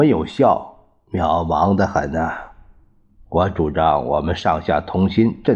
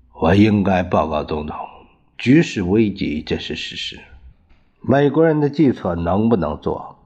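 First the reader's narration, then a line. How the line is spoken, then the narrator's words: Sighing. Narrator (Chinese): 吴铁城叹息说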